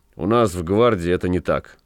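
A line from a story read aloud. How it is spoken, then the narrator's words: Dry. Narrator (Russian): сухо сказал ротмистр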